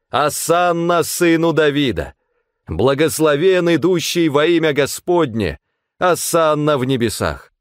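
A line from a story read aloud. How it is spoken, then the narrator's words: Crowd shouting. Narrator (Russian): Толпы людей кричали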